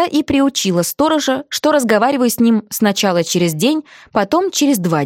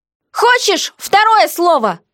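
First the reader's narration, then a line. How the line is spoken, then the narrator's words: Shouted reply. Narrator (Russian): крикнула я в ответ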